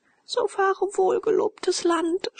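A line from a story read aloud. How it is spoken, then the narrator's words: Sobbing. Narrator (German): schluchzte Leonore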